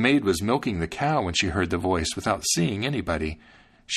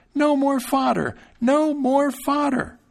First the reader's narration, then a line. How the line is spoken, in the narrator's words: At last his fright became so great that he cried out as loud as he could